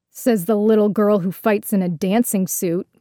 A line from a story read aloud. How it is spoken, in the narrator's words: Cotter sneered